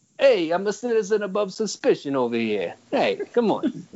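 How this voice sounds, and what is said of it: New York cop voice. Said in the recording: “I love your cop voice. You got to keep doing the cop voice... they talk like this”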